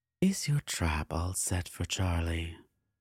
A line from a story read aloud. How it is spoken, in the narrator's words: Cordiva purred in her usual way